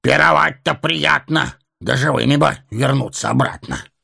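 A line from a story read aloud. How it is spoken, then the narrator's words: Wry snort. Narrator (Russian): хмыкнул Торин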